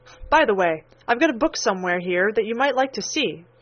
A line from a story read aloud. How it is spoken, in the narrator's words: said the oldest boy of the party